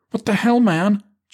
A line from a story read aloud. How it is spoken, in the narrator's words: Jackie cried